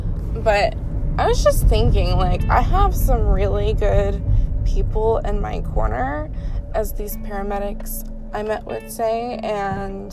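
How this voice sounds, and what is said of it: Scratchy, lower-sounding just-woke-up voice. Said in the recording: “If I sound kind of less like a female right now, it's because I just woke up and my voice is still a little scratchy”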